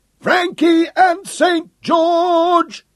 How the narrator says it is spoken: the men howled as they saw their captain in the thick of the fight

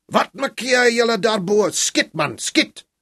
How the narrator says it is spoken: a boer shouted from below

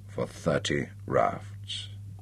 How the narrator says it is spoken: whispered the captain

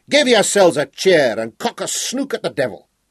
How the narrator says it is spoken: he roared, so that even those up on the yards could hear him

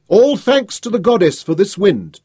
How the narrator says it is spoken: Tanus shouted

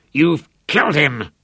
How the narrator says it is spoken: Lothar snarled at his son

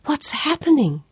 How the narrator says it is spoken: gasped

